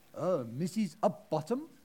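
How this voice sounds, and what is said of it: Put-on Indian accent. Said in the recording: “he was Indian, by the way. So I'm not very good at Indian accents, but I will have a go.”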